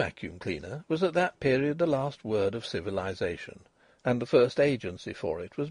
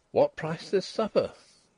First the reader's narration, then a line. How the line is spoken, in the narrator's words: Denry exclaimed